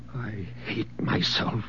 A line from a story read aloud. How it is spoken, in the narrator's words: he whispered